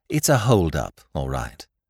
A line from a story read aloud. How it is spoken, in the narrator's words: said Jimmy, soothingly